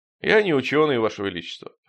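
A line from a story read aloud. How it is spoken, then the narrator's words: Snorting scoff. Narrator (Russian): хмыкнул Стремглав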